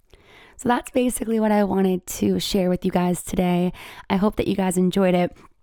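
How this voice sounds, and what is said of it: Raspy, slightly sick-sounding voice. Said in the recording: “my voice is a little raspy and I sound like I'm sick ... I've kind of had the sniffles all day”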